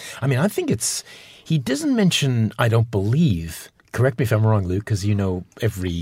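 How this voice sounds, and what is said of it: Usual voice. Nothing is said of it.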